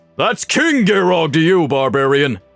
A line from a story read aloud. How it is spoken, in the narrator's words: Garrogg bellowed